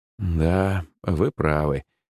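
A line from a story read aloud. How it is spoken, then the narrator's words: Sorrowful sigh. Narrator (Russian): горестно вздохнул я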